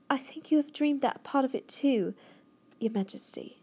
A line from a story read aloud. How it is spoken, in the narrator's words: Sophie said calmly